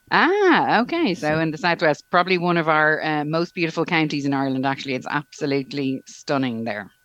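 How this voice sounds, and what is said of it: Irish Dublin accent. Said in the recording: “I love your accent ... It's a good Irish brogue from Dublin ... haven't lost my Irish brogue yet”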